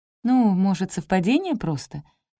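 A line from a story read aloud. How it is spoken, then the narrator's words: Timid suggestion. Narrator (Russian): робко предположила я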